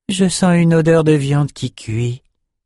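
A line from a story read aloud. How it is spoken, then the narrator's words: Plain. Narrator (French): dit Val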